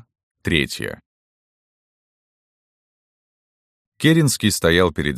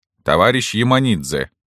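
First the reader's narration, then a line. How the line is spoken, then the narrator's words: Plain. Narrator (Russian): сказал он Керенскому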